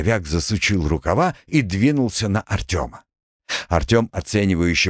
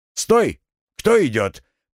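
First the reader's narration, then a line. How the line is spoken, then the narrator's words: Shouting. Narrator (Russian): крикнул он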